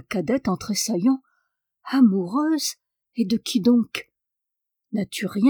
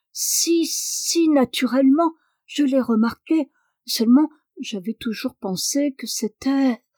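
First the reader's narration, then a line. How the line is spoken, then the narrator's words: Frightened stammer. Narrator (French): Tout effrayée, la cadette balbutie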